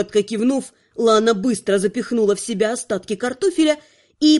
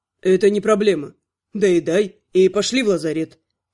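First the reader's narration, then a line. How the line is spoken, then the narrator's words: Calm elf. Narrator (Russian): спокойно предложил эльф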